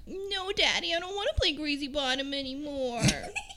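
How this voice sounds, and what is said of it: Creepy little girl voice. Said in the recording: “You like my little girl voice? It's good, isn't it? ... It's not so much annoying as it kind of creeps me out.”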